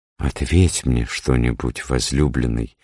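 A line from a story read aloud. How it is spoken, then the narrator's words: Timid request. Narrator (Russian): робко попросила Суламифь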